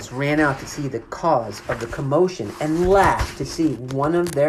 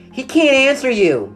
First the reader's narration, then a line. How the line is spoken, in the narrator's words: shouted Amy ... defiantly